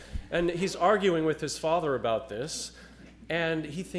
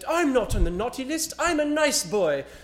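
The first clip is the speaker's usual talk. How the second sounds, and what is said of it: Imitated British child's accent. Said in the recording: “that little British brat, the little kid with the little accent.”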